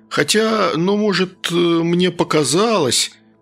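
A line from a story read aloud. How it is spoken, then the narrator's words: Hesitant uncertain start. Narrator (Russian): неуверенно начал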